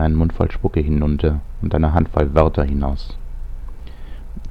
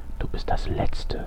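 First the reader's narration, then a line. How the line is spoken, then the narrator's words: Quiet. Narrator (German): sagte leise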